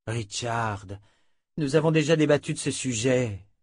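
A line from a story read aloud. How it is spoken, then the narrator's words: Weary sigh. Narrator (French): soupira l'inquisitrice, très lasse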